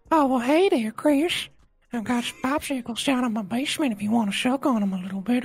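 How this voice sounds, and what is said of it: Cartoon character voice, no lisp. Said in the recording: “I can do a Herbert the Pervert but just without his whistle lisp.”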